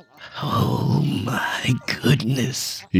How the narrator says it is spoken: he whispered

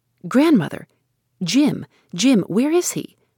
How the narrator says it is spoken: she asked in an alarmed voice, for the figure she had met hurrying through the storm flashed upon her with a strange distinctness

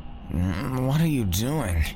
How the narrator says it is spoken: asked Eric as he propped himself up sleepily

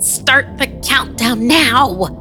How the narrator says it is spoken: she yelled

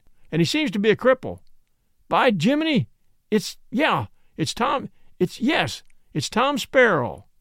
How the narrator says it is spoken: shouted the captain

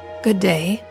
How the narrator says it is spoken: said the Scarecrow, in a rather husky voice

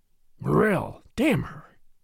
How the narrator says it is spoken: he muttered

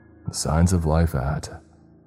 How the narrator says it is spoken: I chuckled and began to say

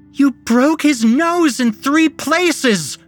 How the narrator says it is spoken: Penny screeched

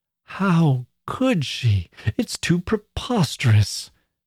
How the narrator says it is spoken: Miss Glyde exclaimed

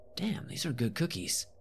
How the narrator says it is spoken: I mumbled to myself as I ravenously devoured it

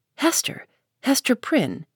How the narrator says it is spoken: said he

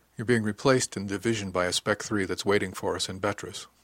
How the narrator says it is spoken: she said quietly

